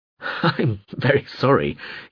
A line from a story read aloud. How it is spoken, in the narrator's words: laughed